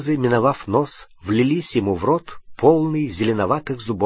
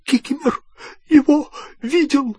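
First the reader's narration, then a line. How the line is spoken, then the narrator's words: Wheezy rasp. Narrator (Russian): просипел эльф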